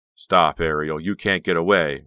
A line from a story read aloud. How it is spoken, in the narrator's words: Red cried